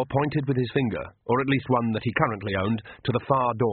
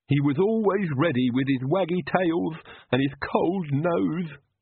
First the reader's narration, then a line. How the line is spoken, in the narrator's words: Igor sobbed